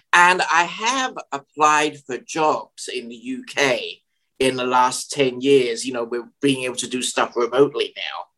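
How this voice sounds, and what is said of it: Educated English received pronunciation accent. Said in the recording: “a received pronunciation accent... we're not talking 1930s BBC accent, but we're talking in an accent that can be clearly understood by everyone. An educated English accent... your delivery sounds too old-fashioned”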